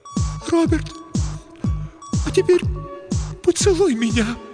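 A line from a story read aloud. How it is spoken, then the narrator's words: Near sobbing. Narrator (Russian): произнесла Елена, едва не рыдая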